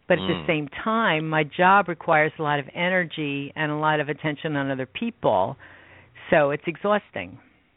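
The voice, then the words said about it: American East Coast accent. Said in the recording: “I can hear that Eastern accent. I'm from the East Coast as well”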